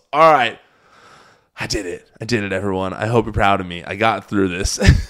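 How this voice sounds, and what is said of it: Strained, fading hoarse voice. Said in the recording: “I think you can hear my voice that these last few minutes, I started to lose my voice.”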